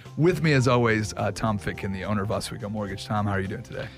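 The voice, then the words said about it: Voice lower, deeper than usual. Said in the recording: “Forgive my voice. It's a little bit lower an octave today. Allergies have been kicking in.”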